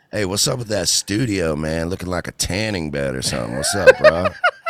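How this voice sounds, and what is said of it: Imitates another person's voice. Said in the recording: “does a great Theo Von impression ... That's on point”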